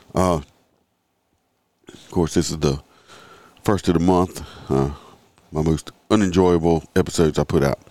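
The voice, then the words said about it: Stuffy, congested voice. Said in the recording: “We're still stuffy. Not as bad as I've been ... excuse my voice. It's a little off right now.”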